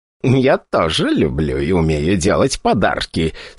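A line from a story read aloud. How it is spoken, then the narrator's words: Eager muttering. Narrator (Russian): с предвкушением бормотала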